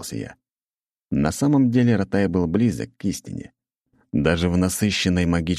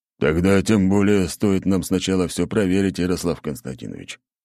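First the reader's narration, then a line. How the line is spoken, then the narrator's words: Gloomy grumble. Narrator (Russian): хмуро проворчал Аршавин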